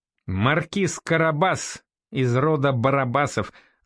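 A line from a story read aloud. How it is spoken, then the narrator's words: Laughing. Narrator (Russian): засмеялся Норман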